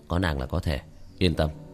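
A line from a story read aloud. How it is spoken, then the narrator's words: Soft laugh. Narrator (Vietnamese): Tiểu thất nhẹ nhàng cười một tiếng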